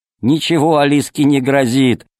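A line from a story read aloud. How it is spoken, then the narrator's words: Laughing. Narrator (Russian): смеялся Полосков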